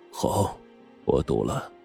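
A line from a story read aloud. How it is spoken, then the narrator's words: Deep voice after pause. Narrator (Chinese): 萧焕山沉吟了一下，沉声说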